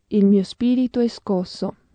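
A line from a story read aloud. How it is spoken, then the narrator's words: Murmur in Swahili. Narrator (Italian): la udì mormorare in Swahili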